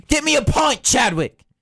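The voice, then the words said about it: Rough working-class British accent. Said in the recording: “that's like the ruffian accent”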